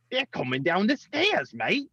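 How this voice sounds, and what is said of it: Attempted Australian accent. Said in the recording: “I can't do an Australian accent. I can't do any accents.”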